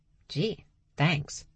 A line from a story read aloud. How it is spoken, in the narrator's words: Max muttered